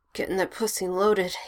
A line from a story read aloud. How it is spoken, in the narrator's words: he says through his teeth